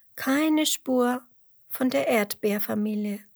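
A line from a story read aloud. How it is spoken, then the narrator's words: Sighing. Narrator (German): seufzt Emmerla nochmal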